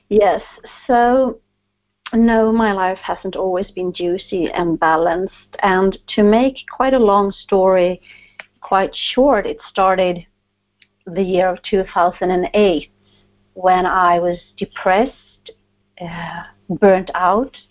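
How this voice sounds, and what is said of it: Swedish accent. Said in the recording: “interesting that I have an accent... I'm a Swedish, so I talk like Swedish”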